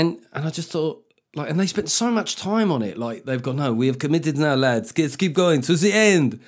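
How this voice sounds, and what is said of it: Usual voice. Nothing is said of it.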